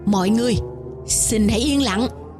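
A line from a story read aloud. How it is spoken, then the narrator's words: Lowered voice. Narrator (Vietnamese): một trong ba người ngồi giữa hạ giọng nói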